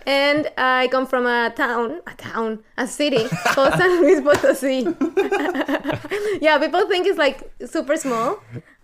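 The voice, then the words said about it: Mexican-accented English. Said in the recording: “I'm from Mexico, as you can hear by my accent.”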